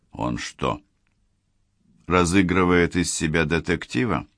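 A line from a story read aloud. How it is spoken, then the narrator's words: Dry question. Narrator (Russian): сухо спросил Чарльз Грейди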